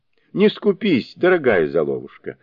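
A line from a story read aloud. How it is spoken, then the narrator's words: Laughing reply. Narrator (Russian): смеясь, отвечал Суни-кун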